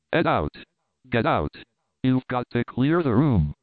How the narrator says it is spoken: The person came forward, proclaiming irritably

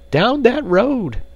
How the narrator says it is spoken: cried the frightened woman

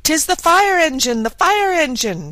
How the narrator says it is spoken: shouted two or three voices

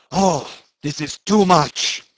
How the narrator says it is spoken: he shouted

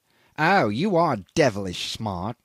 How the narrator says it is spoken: he sneered

